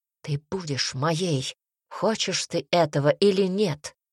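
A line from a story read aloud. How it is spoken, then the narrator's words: Hoarse whisper. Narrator (Russian): прошептал он хрипло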